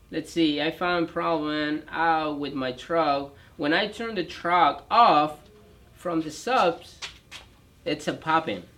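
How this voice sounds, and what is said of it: Noticeable foreign accent in English. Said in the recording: “I have a funny accent ... I sound horrible”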